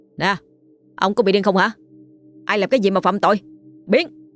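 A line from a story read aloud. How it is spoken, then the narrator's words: Shouting in someone's face. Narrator (Vietnamese): Một người trong số họ hét vào mặt anh Bảy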